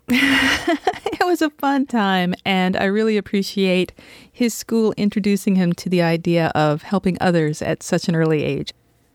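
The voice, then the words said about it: Rough, hoarse voice. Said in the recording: “my voice sounds a little rough today, it's because I just got home from my son's trikeathon ... I spent the last 3 or 4 hours out in the hot sun going, "Woo, you can do it!"”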